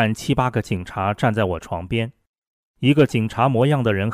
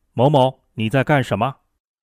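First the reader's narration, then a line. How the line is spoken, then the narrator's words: Sudden loud shout. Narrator (Chinese): 突然有人大声吆喝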